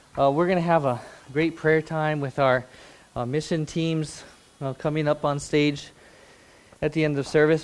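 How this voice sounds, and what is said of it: Out of breath. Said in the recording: “out of breath ... That shows how out of shape I am”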